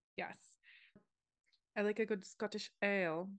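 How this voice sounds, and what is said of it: Attempted Scottish accent. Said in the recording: “It's a very nice attempt on the accent”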